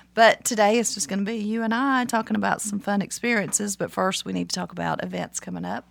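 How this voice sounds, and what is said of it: Congested, deeper voice. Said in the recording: “I'm a little bit congested ... if I'm talking kind of with a deep voice, it's because of pollen”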